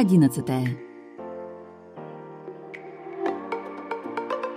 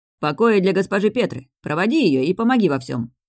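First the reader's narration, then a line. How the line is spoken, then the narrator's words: Harsh bark. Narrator (Russian): рявкнул Волда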